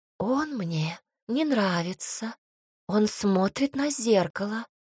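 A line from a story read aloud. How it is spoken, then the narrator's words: Hissing ghost. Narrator (Russian): прошипел призрак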